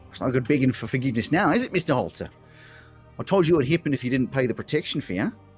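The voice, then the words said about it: Wild unfamiliar put-on accent. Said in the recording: “in a wild accent that you've never heard before”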